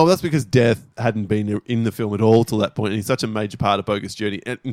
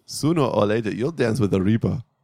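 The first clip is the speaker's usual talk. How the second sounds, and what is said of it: Imitating Death's Swedish-style accent. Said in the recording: “putting on that accent. It was really weird. Like, Death is what, Norwegian? ... It's like Eastern European. ... he's meant to be Swedish”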